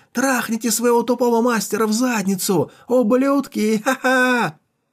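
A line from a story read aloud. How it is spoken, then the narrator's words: Jeering shouts. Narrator (Russian): Солдаты кричали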